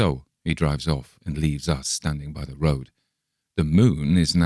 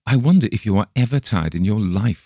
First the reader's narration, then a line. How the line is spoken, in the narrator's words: I exclaim by and by, half peevishly